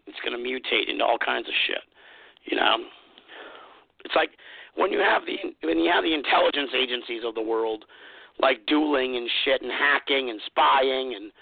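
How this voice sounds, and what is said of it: Hoarse, fading voice. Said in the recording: “I'm losing my voice a bit”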